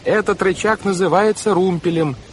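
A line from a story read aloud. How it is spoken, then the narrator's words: Shout. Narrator (Russian): прокричала Вайолет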